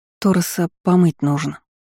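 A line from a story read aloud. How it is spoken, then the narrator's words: Lifeless, anxious voice. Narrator (Russian): произнесла я неживым голосом, ощущая, как быстро колотится сердце в груди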